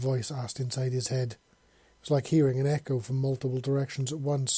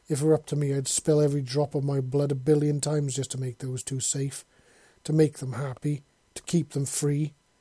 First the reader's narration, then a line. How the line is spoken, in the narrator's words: he said bitterly